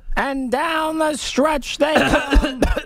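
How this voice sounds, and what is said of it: Impression of race caller Jody Mack. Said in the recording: “That was my Jody impersonation ... Oh, I couldn't actually tell if that was a real one.”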